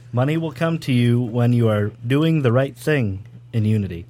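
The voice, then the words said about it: Smooth, buttery radio announcer voice. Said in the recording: “Nice radio voice ... He's got the butter voice ... it's like perfect for radio”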